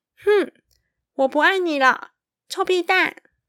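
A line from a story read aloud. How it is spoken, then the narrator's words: Loud, childish. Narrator (Chinese): 大声的说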